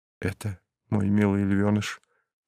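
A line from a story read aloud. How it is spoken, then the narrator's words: Whisper right in ear. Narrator (Russian): в самое ухо шепнул ей Ники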